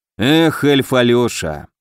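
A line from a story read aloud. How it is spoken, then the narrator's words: Heavy sigh. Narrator (Russian): судья тяжело вздохнул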